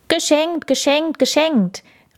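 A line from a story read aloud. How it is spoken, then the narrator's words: Called out. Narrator (German): rief er, kaum dass er die Kinder sah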